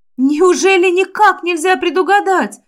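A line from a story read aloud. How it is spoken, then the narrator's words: Upset exclamation. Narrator (Russian): расстроенно воскликнула я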